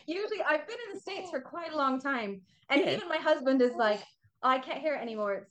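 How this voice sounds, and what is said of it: English accent. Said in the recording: “You sound like you've got a UK accent going on.”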